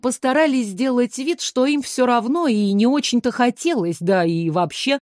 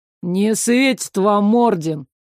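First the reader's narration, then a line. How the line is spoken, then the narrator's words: Dismissive snort. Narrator (Russian): пренебрежительно хмыкнул Иль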